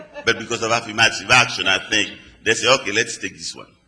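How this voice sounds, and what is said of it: Speaks with a foreign accent. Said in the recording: “I have an accent. ... I'm not from here”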